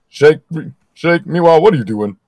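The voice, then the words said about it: Deeper cartoon character voice. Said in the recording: “I can't do Frylock. Is it just a normal voice? ... You just do a deeper voice”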